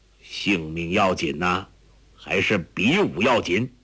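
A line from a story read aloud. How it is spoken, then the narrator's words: Cold. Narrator (Chinese): 何镇恶冷冷地说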